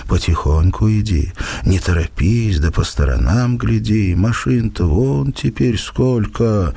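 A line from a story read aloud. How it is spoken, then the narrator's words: Gentle, kind voice with sigh. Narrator (Russian): привычно вздохнув, как и в детстве, говорила ласковым и добрым голосом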